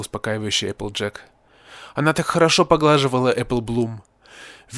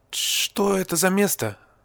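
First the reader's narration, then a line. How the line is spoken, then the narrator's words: Trembling voice. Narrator (Russian): дрожащим голосом спросила Apple Bloom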